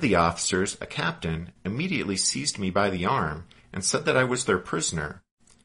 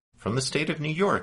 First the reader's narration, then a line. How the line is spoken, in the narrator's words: I replied